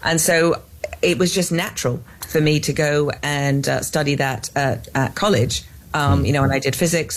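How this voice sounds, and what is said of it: English accent. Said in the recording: “you can tell by my accent, I am not from Texas. I am clearly from England.”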